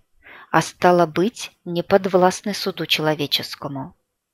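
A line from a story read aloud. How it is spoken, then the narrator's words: Calm. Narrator (Russian): спокойно произнес Игнат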